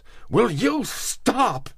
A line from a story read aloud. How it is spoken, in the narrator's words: cried